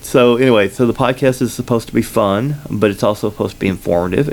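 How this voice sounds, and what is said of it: Slight Southern combination accent. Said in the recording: “I have kind of a little bit of a Southern accent ... this really weird combination accent”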